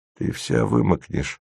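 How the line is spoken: Indifferent mutter. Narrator (Russian): пробормотал Гарин, как ей показалось, безучастно

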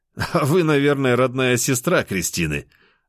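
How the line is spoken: Laughing. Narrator (Russian): рассмеялся я

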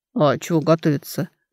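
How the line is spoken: Grumbling. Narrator (Russian): проворчал Кары

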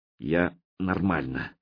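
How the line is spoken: Through gritted teeth. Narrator (Russian): сказала рыжая сквозь зубы

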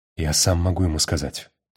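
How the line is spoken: Whispered. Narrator (Russian): прошептал он

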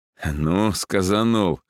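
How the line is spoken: Boss snorting. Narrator (Russian): хмыкнул начальник

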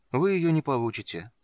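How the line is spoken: Sad native. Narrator (Russian): сказал абориген грустно

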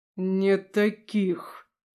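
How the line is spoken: Louder, through clenched teeth. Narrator (Russian): громче повторил он сквозь зубы

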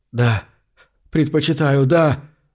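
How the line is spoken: Sobbing. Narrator (Russian): всхлипывал бедняга

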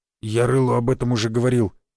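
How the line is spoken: Muttered through teeth. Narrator (Russian): процедил череп

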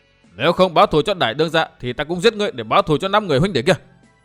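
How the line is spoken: Sudden interrupting shout. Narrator (Vietnamese): Châu Bưu bỗng xen vào quát

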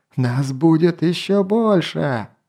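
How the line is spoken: Loud guffaw. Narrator (Russian): захохотал он

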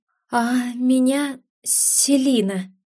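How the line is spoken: Slightly stammering reply. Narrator (Russian): ответила, чуть заикаясь

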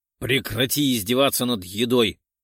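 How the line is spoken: Hot-tempered bark. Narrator (Russian): рявкнул сгоряча

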